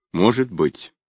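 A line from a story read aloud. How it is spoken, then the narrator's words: Gloomy. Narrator (Russian): мрачно произнес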